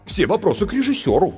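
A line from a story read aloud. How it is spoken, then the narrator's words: Offended. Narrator (Russian): обиженно сказал сценарист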